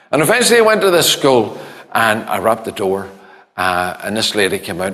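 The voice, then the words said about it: Northern Irish accent. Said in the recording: “my northern accent”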